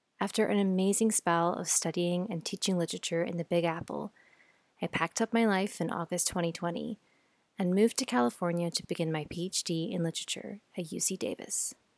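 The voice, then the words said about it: Scottish accent. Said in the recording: “I was born and raised in Scotland. You might be able to hear my accent”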